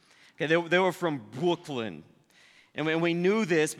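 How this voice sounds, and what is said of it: Usual voice. Nothing is said of it.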